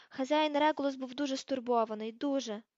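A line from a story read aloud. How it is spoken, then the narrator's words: Hoarse rasp. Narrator (Ukrainian): прохрипів Крічер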